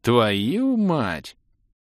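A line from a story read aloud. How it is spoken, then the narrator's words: Breathless exhale. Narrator (Russian): выдохнул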